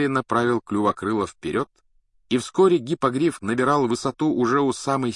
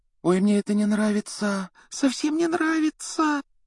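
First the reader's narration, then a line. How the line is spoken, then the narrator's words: Frightened whisper. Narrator (Russian): Гермиона испуганно шептала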